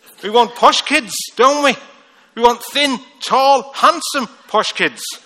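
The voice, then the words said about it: Rough Liverpool accent. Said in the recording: “even in Liverpool, I've got a rough accent ... accents like mine”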